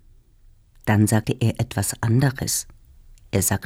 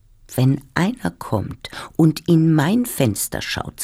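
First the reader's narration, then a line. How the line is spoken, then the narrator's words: Plain. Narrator (German): sagte ich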